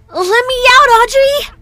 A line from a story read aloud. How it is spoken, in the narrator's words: screamed at the top of my lungs